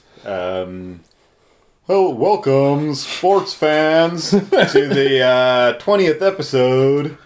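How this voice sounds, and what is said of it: Sports commentator voice. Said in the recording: “can you do like a sports commentator voice? ... that was my impression ... That's pretty good”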